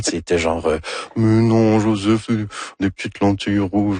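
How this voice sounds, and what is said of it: Imitates another person's voice. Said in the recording (French): “Ça, c'est mon imitation de Anne Dorval ... C'est très réussi”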